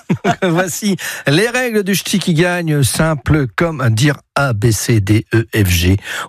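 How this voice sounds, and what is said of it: Attempted put-on Norwegian accent. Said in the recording (French): “Je vais essayer de faire avec l'accent norvégien, mais je ne sais pas le faire.”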